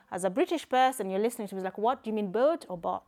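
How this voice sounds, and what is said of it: Kenyan accent. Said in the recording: “I am Kenyan... my Kenyan accent”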